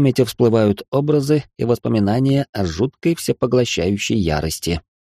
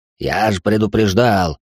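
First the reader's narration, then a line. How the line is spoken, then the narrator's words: Dragon snorting. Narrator (Russian): фыркнул дракон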